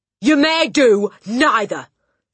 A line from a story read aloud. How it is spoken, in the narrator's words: snapped the Trunchbull